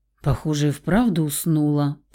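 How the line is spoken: Mutter. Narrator (Russian): пробормотал Рауль

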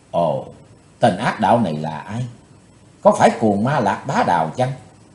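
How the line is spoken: Soft involuntary whisper. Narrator (Vietnamese): Bất giác chàng thiếu hiệp khẽ thầm

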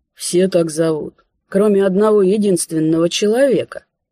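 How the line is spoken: Creaky voice. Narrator (Russian): проскрипел он

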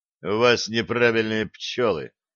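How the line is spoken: Gloomy. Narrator (Russian): мрачно сказал Блад

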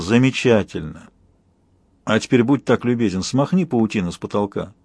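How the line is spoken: Purring. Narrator (Russian): промурлыкал

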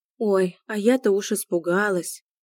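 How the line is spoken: Sigh. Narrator (Russian): вздохнула Аня

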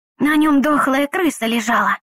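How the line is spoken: Loud whisper. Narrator (Russian): громким шепотом сообщил кто-то

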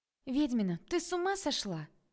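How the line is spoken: Exclaiming. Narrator (Russian): воскликнула подруга

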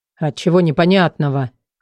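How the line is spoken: Warrior's snort. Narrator (Russian): хмыкнул богатырь

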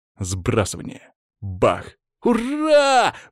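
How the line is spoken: Exclaiming. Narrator (Russian): воскликнул Саня

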